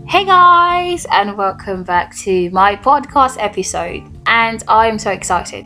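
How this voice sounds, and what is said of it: Loud, almost shouting excited voice. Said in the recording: “Why do I sound so loud and why am I shouting? Almost shouting though.”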